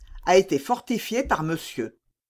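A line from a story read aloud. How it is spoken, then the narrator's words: Cold. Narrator (French): dit froidement Aramis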